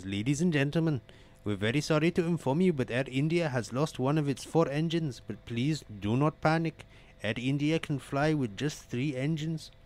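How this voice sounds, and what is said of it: Put-on Indian accent. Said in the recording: “Excuse me for my Indian accent here”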